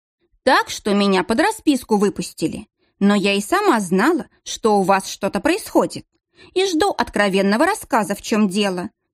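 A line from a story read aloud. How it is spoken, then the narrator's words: Stern. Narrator (Russian): строго добавила Александра Павловна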